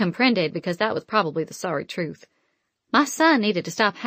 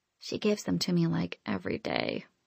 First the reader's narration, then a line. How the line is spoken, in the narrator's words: Anna Mae whispered